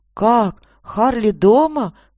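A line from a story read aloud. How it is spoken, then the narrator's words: Exclaimed. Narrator (Russian): воскликнула Аня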